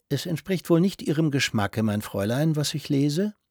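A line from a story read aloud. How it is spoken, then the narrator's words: Soft-voiced question. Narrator (German): Herr Grünlich fragte mit weicher Stimme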